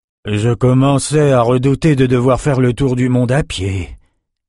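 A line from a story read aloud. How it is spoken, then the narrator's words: Sigh. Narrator (French): soupira Nathan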